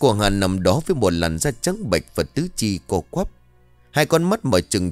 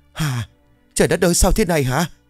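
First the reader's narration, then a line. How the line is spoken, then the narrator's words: Trembling, wailing scream. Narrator (Vietnamese): hai người run rẩy quỳ xuống rồi gào thét lên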